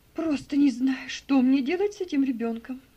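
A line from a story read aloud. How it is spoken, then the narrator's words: Despairing exclamation. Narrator (Russian): В отчаянии воскликнула мисс Офелия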